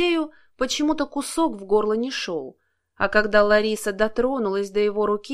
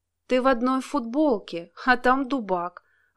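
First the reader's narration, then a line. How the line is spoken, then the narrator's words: Sigh. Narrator (Russian): вздохнула Лариса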